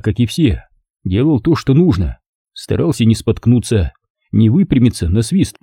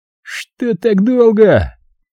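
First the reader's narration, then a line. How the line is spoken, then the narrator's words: Hoarse swearing shout. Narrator (Russian): Несется нам навстречу с хриплым матерком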